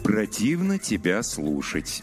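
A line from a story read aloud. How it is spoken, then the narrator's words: Slow reply. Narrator (Russian): медленно ответил Пауэлл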